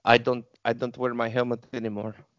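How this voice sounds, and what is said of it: Chilean-accented character impression. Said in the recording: “do a Mando impression ... Fantastic Chilean accent”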